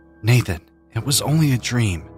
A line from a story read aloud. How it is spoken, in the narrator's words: said to myself, casting the fear that gripped me tightly